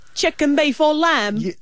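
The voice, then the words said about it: Put-on English accent as Prince Harry. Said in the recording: “It's Harry. So it's English. ... You've done the accent, okay. ... English accent.”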